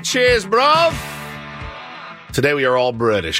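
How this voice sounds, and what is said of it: Put-on British accent. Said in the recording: “doing a British accent”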